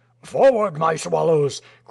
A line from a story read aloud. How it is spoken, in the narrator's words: cried the yemshik